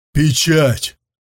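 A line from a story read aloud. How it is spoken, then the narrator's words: Shout. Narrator (Russian): крикнул Сунзюй мастеру Бао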